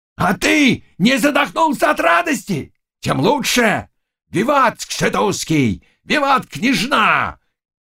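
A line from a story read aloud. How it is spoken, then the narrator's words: Shouting. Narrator (Russian): кричал Заглоба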